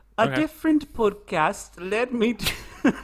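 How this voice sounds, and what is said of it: Attempted British accent. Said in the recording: “read it in a British accent... This will be terrible, but I'm going to try”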